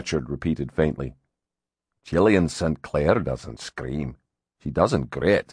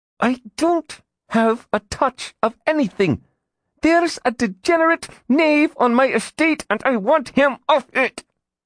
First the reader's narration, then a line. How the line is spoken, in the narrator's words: said through gritted teeth